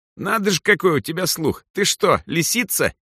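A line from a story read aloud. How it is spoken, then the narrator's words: Mocking squeak. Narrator (Russian): издевательски пропищал Хайме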